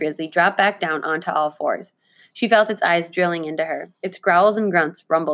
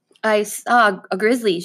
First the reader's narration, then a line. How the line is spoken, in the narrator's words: she stammered